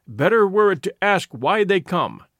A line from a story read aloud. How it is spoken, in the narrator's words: cried a voice from the darkness